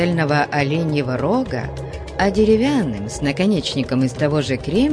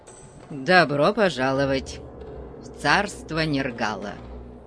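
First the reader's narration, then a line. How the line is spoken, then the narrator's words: Grumbling. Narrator (Russian): проворчал Конан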